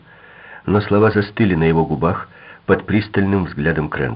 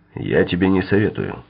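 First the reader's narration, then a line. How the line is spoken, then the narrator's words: Plain. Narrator (Russian): сказал Крэмтор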